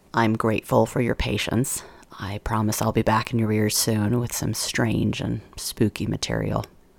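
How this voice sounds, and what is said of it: Rough, hoarse voice. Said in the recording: “As you can hear, my voice is rough right now. I've been fighting a cold. ... it's gone after my throat”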